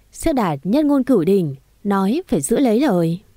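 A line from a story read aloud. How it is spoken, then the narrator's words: Loud laughter. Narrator (Vietnamese): Cô cười lớn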